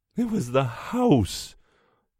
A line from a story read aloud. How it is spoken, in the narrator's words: the mother is moaning